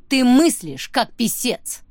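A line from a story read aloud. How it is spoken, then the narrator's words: Barking. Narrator (Russian): рявкнула она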